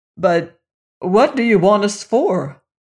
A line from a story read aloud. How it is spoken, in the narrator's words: asked the shaggy man uneasily